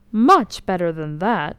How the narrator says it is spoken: cried the soldier triumphantly

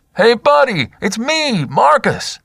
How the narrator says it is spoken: Marcus cupped his hands around his mouth and shouted into the trees

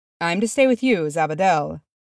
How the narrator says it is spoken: he said cheerfully

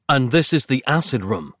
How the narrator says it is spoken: asked Nick

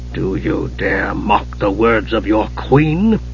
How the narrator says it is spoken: Raceland hissed

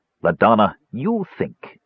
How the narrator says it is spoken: Parsalian snapped

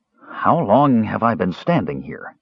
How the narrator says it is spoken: he asked out loud

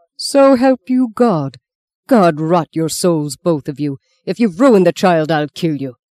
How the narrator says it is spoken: the priest roared, the only one angry now

